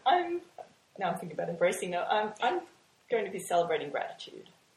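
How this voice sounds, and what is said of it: Australian accent. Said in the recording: “you've got the sexy Australian accent”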